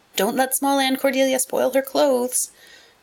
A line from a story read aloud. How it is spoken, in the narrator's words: warned Diana anxiously